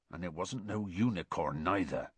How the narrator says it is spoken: said Hagrid grimly

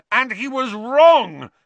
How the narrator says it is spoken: Harry yelled

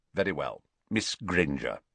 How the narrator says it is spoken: Snape ... saying curtly

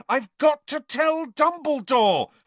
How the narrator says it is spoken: Harry yelled

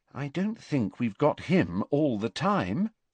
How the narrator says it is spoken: said Hermione very quietly

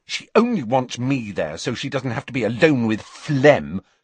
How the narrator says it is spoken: said Ginny crossly

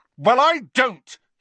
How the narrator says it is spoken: he said as loudly as before

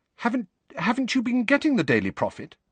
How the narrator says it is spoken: Hermione asked nervously

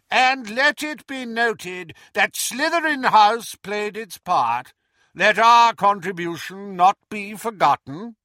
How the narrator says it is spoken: Phineas Nigellus called in his high, reedy voice

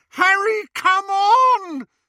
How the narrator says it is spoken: screamed Hermione

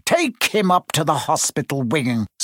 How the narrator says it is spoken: Spate spat at Seamus

